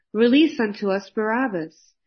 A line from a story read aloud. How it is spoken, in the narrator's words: they cried out